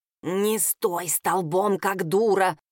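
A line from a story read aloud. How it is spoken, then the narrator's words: Hiss in the ear. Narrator (Russian): прошипел мне на ухо противный Граар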